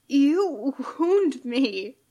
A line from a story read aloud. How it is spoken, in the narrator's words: he says with a raspy chuckle